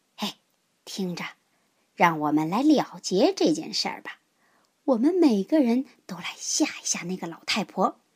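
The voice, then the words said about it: Whispered, quiet voice. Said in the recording (Chinese): “狮子小声说”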